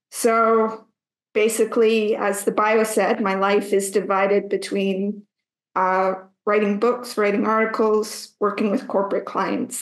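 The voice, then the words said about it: Canadian accent. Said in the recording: “I'm a Canadian, as many can hear by my accent”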